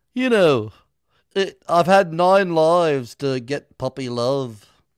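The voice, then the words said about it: Put-on accent. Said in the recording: “I'll do some accent here.”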